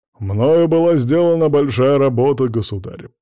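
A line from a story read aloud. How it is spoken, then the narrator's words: Deep bass, nobleman. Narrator (Russian): пробасил боярин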